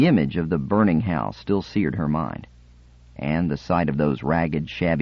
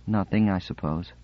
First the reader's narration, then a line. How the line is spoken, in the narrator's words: Sephira said, her voice barely audible